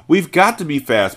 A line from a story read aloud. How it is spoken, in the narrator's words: Matilda cried